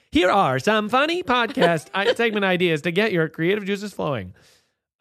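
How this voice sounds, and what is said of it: TikTok text-to-speech style voice. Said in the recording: “in that TikTok voice”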